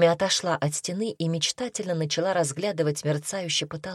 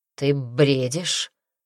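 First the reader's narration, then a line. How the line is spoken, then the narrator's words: Calmer. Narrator (Russian): сказал Дарсу уже более спокойно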